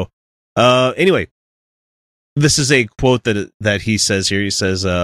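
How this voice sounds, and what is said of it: Usual voice. Nothing is said of it.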